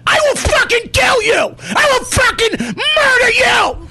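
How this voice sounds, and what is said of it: Loud enraged yelling. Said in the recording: “I'm yelling at him ... You just blew out everyone's ears.”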